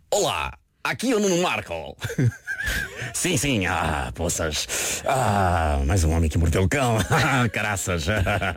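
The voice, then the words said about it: Imitates another person's voice. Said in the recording (Portuguese): “essa é a minha imitação do Marco ... a tua imitação é ótima”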